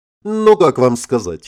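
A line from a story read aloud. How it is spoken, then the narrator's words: Giggle. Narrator (Russian): хихикнула аватарка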